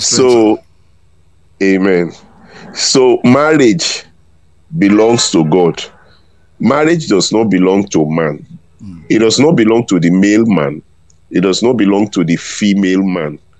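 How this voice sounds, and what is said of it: Voice affected by a cold. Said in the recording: “my voice may be I have a little cold. Bit of cold. ... I already sense that, because you coughed a bit.”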